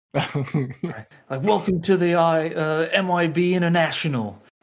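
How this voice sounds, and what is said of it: Australian accent impression. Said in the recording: “This is my Australian accent... It's pretty spot on... Fucking nailed it.”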